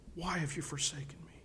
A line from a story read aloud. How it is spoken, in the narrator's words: Jesus experiences that awful separation and cries out